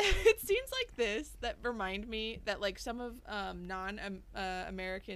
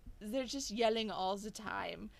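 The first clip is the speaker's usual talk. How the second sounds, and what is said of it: Fake pan-European accent. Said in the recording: “This is my fake pan-European accent.”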